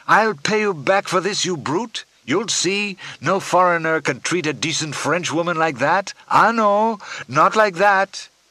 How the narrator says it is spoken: she shouted

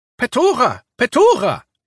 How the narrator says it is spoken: seemed to be shouting

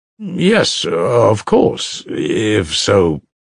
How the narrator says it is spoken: muttered Alyosha

